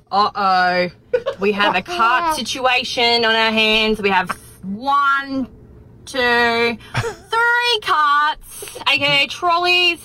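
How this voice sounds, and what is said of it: Australian accent. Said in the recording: “deputy ... from Australia ... I love her accent”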